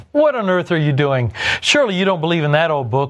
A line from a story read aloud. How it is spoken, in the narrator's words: one of them jeered